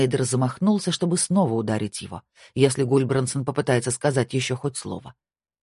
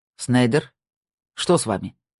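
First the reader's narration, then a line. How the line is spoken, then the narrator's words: Plain question. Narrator (Russian): спросил Гульбрансон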